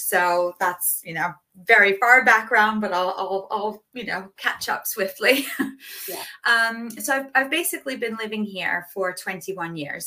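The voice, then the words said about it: American accent, not British. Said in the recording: “You might hear in my voice that I wasn't born and raised in the UK. I was actually born and raised in the US”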